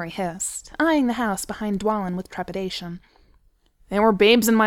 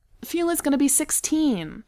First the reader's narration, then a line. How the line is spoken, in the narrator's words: Beaufort said desperately